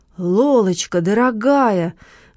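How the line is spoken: Exclaimed. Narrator (Russian): воскликнул Маркиз

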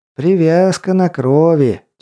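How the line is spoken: Heavy sigh. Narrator (Russian): тяжело вздохнул хранитель места силы

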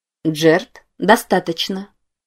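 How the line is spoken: Quiet voice. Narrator (Russian): тихо произнес чей-то голос

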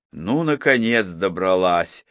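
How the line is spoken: Relieved sigh. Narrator (Russian): облегченно вздохнула Поля

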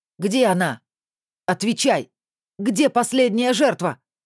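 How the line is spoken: Young man shouting at full voice. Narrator (Russian): во все горло закричал юноша

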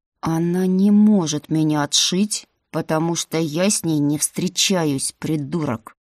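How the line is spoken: Through gritted teeth. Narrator (Russian): Сквозь зубы произнес принц

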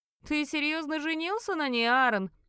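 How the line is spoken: Mocking question. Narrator (Russian): спросил насмешливо брюнет

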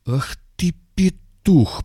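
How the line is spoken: Furious wheeze. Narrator (Russian): просипел в бешенстве

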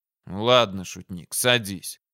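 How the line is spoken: Grumbled, commander. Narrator (Russian): буркнул командующий

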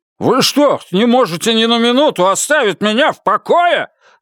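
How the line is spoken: Irritated yell. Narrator (Russian): заорал он раздраженно

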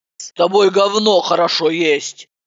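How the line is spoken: Grumbling. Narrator (Russian): Пробурчала она

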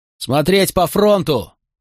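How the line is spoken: Shouted command. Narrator (Russian): крикнул он тем из солдат

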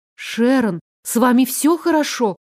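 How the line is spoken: Frightened question. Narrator (Russian): Испуганно спросила я

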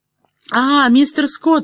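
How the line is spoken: Girl answering joyfully. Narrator (Russian): радостно откликнулась девушка

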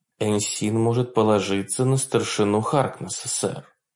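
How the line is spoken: Quiet woman. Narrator (Russian): тихо проинформировала его Макбрайт

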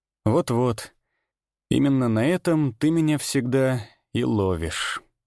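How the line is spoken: Sighing. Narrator (Russian): Даниил вздохнул и произнес

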